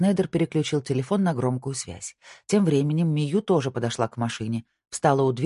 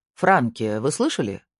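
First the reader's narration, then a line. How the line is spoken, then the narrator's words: Plain. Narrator (Russian): спросил Снайдер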